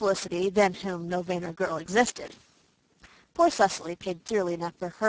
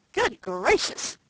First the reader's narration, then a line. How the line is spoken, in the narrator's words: exclaimed Dan